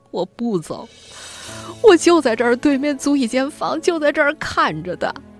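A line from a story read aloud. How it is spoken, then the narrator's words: Sobbing loudly. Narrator (Chinese): 郑义 大哭起来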